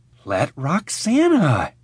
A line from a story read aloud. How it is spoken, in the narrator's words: hissing at me